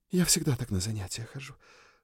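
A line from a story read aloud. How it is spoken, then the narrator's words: Breathless. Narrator (Russian): выдохнула она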